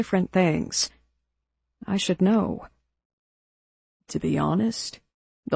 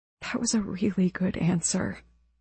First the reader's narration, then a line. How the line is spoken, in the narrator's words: I whispered